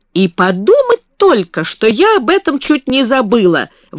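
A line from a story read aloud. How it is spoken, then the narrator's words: Sudden exclamation. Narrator (Russian): воскликнула она вдруг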